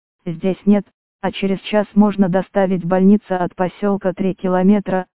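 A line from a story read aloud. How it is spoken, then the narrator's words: Plain. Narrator (Russian): ответил молодой врач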